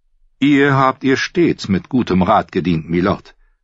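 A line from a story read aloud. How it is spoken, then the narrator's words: Plain. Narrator (German): antwortete Petter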